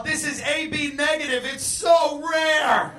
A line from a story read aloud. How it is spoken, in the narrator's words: She yelled